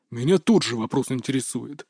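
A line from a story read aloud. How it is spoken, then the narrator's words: Growl from behind. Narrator (Russian): рыкнул за моей спиной тренер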